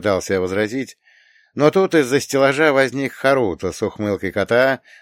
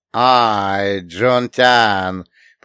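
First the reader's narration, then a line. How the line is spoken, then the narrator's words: Triumphant drawl. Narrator (Russian): протянул он с торжествующей улыбкой на лице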